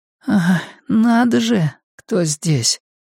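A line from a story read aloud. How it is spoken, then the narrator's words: Hoarse. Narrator (Russian): хрипло проговорила она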